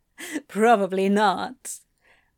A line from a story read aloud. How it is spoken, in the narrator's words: Antony chuckled